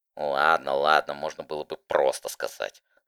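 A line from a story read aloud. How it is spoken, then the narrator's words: Grumbling. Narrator (Russian): проворчала она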